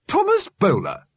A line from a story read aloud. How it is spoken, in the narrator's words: snapped Mrs